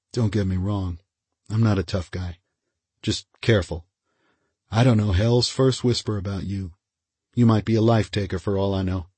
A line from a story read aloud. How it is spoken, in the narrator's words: Brody said quietly